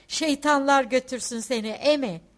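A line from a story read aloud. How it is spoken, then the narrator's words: Shouted. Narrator (Turkish): diye bağırdı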